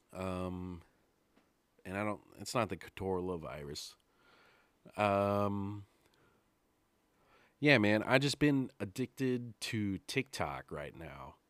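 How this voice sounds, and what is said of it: Voice sounds sick. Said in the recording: “I'm sick right now, as you can tell in my voice.”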